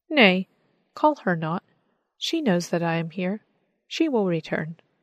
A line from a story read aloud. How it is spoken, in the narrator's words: he said